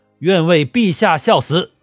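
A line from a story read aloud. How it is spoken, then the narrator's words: Crowd roaring in unison. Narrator (Chinese): 开始吼声杂乱，逐渐整齐划一，响彻云霄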